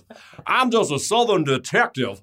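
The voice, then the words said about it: Fake Southern detective accent. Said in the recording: “I love that weird fucking fake accent that Daniel Craig does.”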